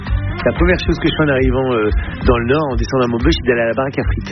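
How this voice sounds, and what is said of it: Northern French regional accent. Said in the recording (French): “n'a jamais perdu ni son accent, ni ses traditions du Nord ... cet accent, pour moi, c'est une carte postale ... avec cet accent, on sait que je viens pas de là où je suis, on sait que je viens du Nord.”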